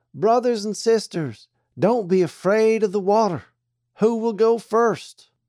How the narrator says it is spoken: he cried

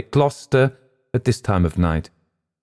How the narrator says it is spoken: replied firmly

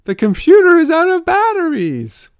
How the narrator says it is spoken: He cried out in tragic exasperation

